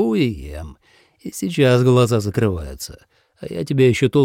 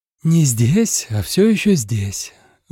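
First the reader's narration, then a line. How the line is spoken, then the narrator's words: Sighed. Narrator (Russian): вздохнула Юрати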